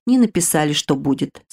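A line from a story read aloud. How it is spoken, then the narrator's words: Gloomy. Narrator (Russian): сказала я мрачно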